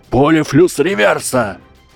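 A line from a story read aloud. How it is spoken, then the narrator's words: Young man roaring. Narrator (Russian): проревел оставшийся парень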